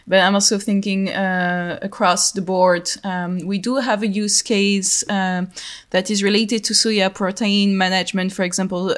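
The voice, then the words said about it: French accent. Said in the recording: “As you can hear to my accent, I'm French”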